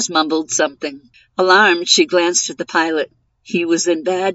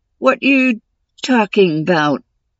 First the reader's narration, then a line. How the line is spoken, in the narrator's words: Jazz said, his voice a painful wheeze from a parched throat